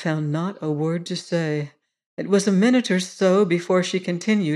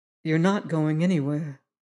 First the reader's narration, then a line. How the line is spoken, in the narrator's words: she replied